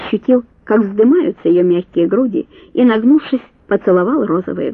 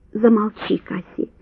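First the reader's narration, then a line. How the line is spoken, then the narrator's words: Tender murmur. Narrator (Russian): нежно пробормотал он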